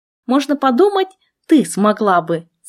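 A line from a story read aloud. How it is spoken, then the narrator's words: Skeptical snort. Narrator (Russian): Скептически хмыкнула ведьмочка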